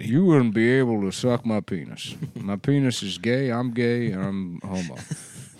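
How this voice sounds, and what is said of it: Wilford Brimley impression. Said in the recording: “That's a good impression.”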